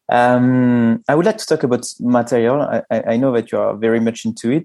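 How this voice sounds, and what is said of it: Italian accent speaking English. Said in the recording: “Sorry for my accent. ... you have an Italian and a French communicating in English”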